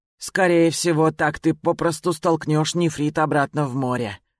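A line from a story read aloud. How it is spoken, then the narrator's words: Sighing. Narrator (Russian): вздохнув, сказал Тао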